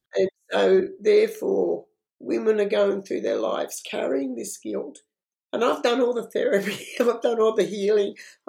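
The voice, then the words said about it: Strained, failing voice. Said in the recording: “sorry, my voice is going on me.”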